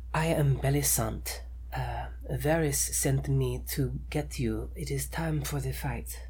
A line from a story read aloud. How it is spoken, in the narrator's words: She says in a lightly accented voice